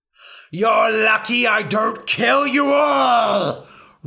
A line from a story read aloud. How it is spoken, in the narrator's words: roared Ra